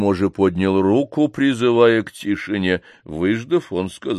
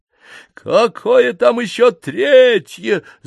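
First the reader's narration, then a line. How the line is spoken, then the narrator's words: Yelling. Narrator (Russian): завопил меняло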